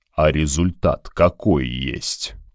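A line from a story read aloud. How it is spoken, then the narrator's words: Tired old dragon asking. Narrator (Russian): устало спросил старый дракон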